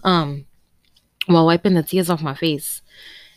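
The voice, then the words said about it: Emotional, tearful voice. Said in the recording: “oh, God, I'm getting emotional.”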